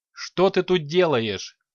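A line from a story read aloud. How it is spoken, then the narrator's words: Barked. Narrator (Russian): рявкнул он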